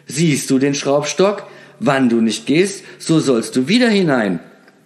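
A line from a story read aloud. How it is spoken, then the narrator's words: Calling out. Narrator (German): rief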